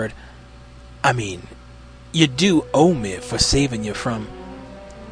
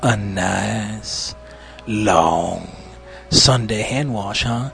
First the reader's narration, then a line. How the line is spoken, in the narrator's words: He drawled, corners of his lips starting to curve up